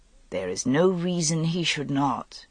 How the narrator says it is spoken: Igraine said gently

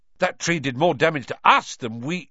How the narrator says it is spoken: Ron blurted out

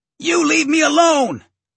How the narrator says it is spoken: he yelled

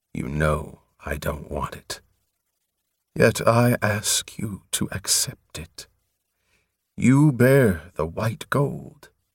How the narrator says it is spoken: Softly, he replied

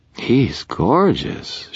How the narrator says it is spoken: she purred

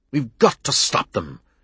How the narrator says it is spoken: Chester said, his voice shaking with excitement

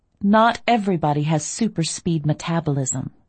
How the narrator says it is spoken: I said dryly

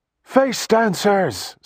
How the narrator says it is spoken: someone shouted

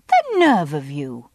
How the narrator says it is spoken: I said indignantly

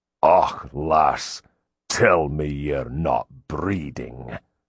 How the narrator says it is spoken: a voice filled with loathing spat

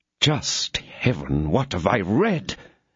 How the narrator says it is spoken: exclaimed Buckingham

